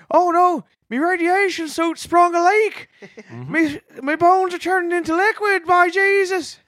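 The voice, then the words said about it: Put-on Newfoundland accent. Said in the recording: “people from Newfoundland in space? Imagine that. East Coasters in space.”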